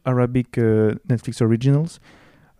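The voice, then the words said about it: Put-on Arabic accent. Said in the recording (French): “tu l'as dit en tout cas avec un. avec quoi Arabic accent.”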